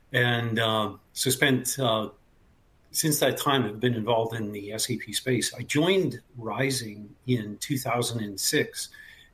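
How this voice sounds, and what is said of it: Canadian accent. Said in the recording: “I'm originally from Canada. The accent might give it away occasionally... I can hear it.”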